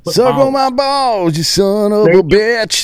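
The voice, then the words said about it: Thick put-on Southern accent. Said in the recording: “You do it with like a thick southern accent when you say it.”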